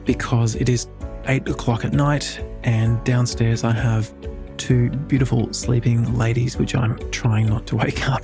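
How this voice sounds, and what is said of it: Soft whispering voice. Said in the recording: “you can probably tell I'm kind of whispering a little bit”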